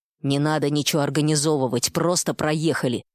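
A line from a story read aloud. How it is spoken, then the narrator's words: Grumbled. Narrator (Russian): буркнула Гена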